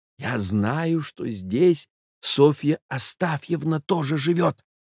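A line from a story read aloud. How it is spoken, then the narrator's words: Sympathetic whisper. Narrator (Russian): проговорил молодой человек шепотом и даже с каким-то соболезнованием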